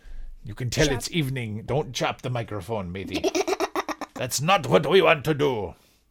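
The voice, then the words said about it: Pirate accent drifting toward Irish. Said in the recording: “my pirate accent is turning Irish”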